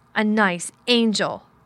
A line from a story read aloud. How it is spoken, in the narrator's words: Colin sneered ferociously